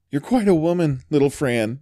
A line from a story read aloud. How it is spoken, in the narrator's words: exclaimed the boy